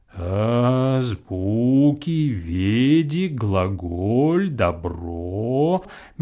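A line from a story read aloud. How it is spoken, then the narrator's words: Slow deliberate speech. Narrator (Russian): медленно произносил Чертопханов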